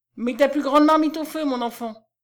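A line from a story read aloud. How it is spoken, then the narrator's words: Exclaiming. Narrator (French): s'écria David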